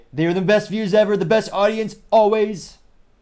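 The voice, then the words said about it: Donald Trump impression. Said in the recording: “as Trump might say ... that impression”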